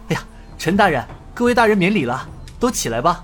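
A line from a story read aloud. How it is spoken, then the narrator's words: Soft, hurried voice. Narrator (Chinese): 尹建平急忙轻声道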